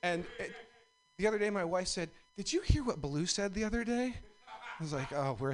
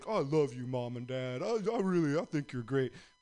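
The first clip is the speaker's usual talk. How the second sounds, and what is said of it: Silly voice for the family dog. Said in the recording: “we do a voice for Blue ... We do the voice.”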